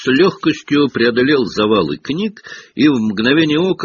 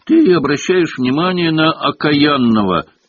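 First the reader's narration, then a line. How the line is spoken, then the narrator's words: Grumbled. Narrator (Russian): пробурчал Хагрид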